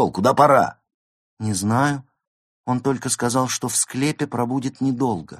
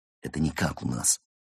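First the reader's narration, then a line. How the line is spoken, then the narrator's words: Indignant whisper. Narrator (Russian): возмущенно зашептал Константин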